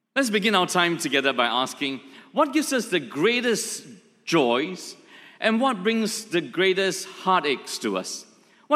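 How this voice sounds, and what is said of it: Singlish accent. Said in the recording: “I will not pretend to put on an English accent that will fail terribly, so it will be my Singlish accent.”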